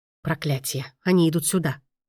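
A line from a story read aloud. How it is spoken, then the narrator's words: Whisper. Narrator (Russian): прошептал маэстро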